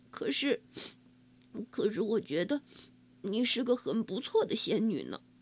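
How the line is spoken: Mumbling. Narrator (Chinese): 嘟囔着说

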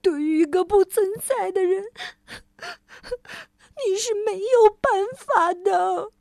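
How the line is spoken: Crying. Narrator (Chinese): 那个既像人又不像人的媒人先生哭着说

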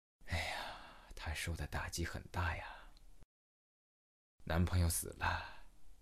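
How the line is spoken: Sighing middle-aged man. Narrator (Chinese): 中年大叔叹了一口气

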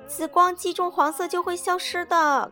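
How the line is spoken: Shouting. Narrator (Chinese): 凯莎喊道

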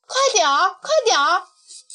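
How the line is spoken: Loud shout. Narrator (Chinese): 花儿大声地叫着

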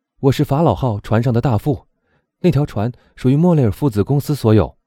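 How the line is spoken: Calm young man. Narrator (Chinese): 青年镇定的回答说

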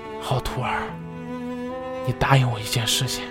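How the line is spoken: Murmuring. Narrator (Chinese): 他喃喃的说

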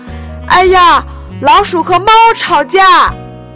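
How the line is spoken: Loud voices. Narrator (Chinese): 他们的声音很大

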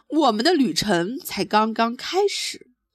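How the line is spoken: Mouse shouting. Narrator (Chinese): 老鼠大叫起来

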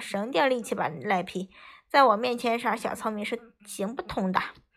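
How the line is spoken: Sweet, low, husky voice. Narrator (Chinese): 我的妹妹甜甜的笑着 用她那磁性的嗓音低声说道

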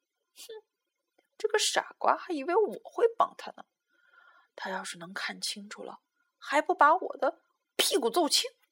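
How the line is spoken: Muttering while sneaking off. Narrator (Chinese): 大野狼一边开溜一边嘀咕

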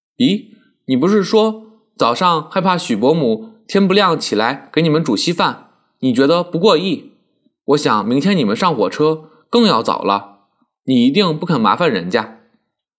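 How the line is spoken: Laughing. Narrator (Chinese): 曼桢笑道

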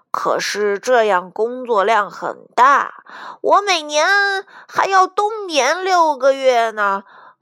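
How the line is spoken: Loud, clear. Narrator (Chinese): 狗狗熊朗朗大声说道

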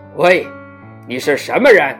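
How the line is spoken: Stiff, loud big man. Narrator (Chinese): 青铜大汉生硬而大声地问道

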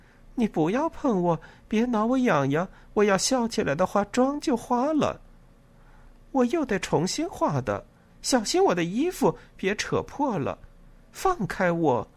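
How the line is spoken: Laughing. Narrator (Chinese): 跟他笑着说

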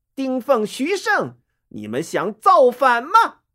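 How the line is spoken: Loud stern shout. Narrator (Chinese): 大声喝道

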